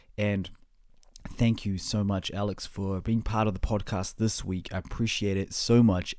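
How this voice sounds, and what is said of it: New Zealand accent. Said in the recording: “where my accent is from. Yes, it's the New Zealand accent.”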